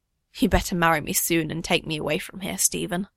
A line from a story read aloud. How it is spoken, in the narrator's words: she mutters